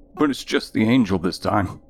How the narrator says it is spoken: Hunter said, his voice shaking

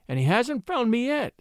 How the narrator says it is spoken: moaned the miniature painter

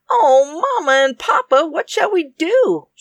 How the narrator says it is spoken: she cried

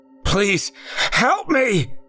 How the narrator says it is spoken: he yelled once more

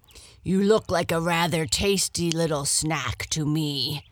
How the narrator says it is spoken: growled the lion

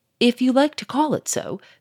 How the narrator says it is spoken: said Gouchard coldly

